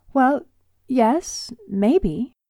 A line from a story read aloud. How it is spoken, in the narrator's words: I stammered